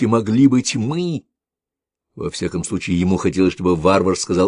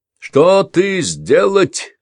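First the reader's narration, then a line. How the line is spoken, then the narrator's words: Shouted in broken foreign language. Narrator (Russian): крикнул на скверном ведесском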